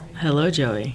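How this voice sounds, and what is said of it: Sultry sexy voice. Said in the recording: “I want you to do your sexy voice now ... That's a 1-800 Alicia voice”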